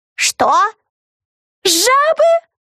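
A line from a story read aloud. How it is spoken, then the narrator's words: Distant shouting women. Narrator (Russian): Закричали ведьмы в другом вагоне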